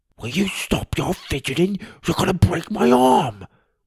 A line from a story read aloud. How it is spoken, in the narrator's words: whispered